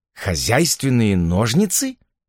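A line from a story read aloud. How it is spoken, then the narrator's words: Exclamation. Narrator (Russian): воскликнул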